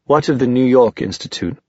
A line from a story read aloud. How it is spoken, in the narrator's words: Sebastian demanded sharply